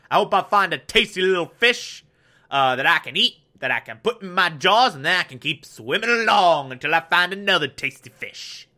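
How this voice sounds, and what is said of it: Silly sea creature character voice. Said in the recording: “doing this voice for the inhabitants of the open ocean ... the voice of the creatures in the open ocean”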